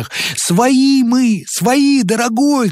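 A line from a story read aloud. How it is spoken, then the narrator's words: Shout. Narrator (Russian): кричал первый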